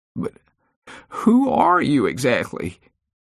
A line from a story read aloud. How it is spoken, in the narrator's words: she asked between sobs